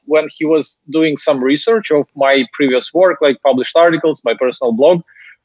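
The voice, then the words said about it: Ukrainian accent in English. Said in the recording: “I never tried to conceal the fact that I'm a Ukrainian. It's not that I can conceal it given my accent anyway.”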